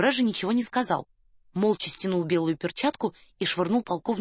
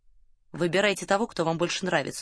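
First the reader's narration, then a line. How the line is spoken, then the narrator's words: Dry remark. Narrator (Russian): сухо обронил Девре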